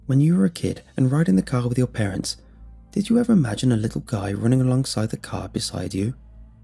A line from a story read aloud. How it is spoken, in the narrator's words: he asked me, I found his tone unusual